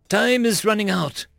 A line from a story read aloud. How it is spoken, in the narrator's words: he sighed